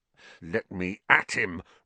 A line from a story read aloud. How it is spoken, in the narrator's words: Ron growled